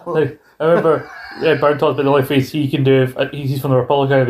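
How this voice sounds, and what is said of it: Usual voice. Nothing is said of it.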